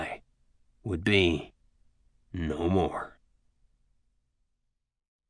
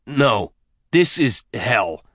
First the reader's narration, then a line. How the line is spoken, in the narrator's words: he snarled